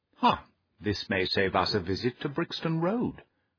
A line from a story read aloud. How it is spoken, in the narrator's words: whispered Holmes